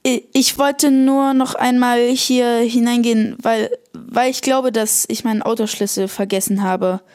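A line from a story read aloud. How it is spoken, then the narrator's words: Stammering. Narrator (German): Thomas stammelte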